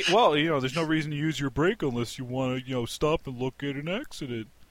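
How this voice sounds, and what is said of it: Imitates another person's voice. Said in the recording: “that's my best. That's my best Corey impression”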